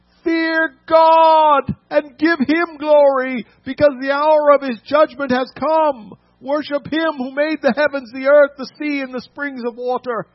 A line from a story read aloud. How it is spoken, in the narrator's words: said in a loud voice